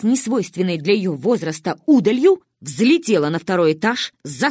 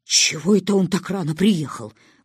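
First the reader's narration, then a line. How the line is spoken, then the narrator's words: Breathless exhale. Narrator (Russian): выдохнула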